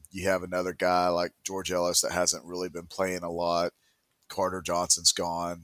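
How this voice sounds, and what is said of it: Deep, congested sick voice. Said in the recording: “I've been battling a sickness for 2 days now. That's why my voice sounds so deep and stopped up.”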